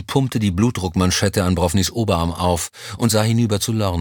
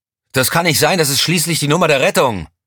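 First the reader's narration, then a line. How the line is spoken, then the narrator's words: Bellowed. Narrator (German): brüllte Elm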